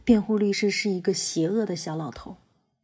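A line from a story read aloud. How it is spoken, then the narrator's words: Low voice, mother. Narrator (Chinese): 妈妈低声说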